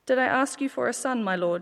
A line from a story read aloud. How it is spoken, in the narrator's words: she said